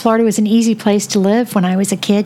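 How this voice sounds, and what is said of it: Southern US accent. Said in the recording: “I could tell by your accent, ... the South.”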